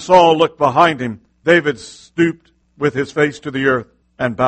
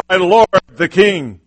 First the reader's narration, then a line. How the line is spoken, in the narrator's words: David called out to Saul, saying